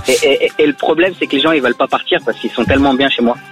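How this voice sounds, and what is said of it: Lebanese-accented French. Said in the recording (French): “t'as l'accent, t'es de chez moi ... rien qu'avec ta voix et ton accent”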